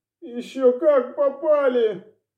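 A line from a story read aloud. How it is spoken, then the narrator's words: Hoarse through split lips. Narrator (Russian): Разбитыми губами просипела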